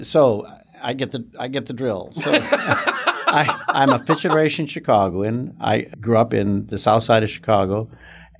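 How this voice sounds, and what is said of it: Accent that sounds Texan. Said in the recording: “you're not a native Texan... everyone assumes I am because of my, my accent”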